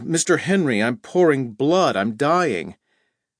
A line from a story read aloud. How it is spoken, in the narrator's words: He almost broke my eardrums with a horrible scream on the intercom, and then he yelled